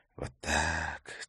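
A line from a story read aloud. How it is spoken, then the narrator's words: Quiet whisper. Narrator (Russian): тихо прошептал он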